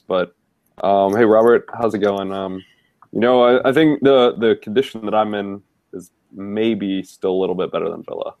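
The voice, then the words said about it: Sick, congested voice. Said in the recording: “I'm feeling a little bit under the weather, so pardon my voice and possibly my nose”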